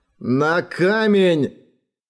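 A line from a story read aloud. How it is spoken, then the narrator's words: Growling. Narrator (Russian): Прорычал он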